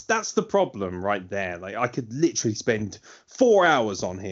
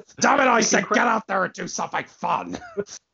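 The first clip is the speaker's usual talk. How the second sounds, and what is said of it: Imitates another person's voice. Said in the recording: “my Vince McMahon impression”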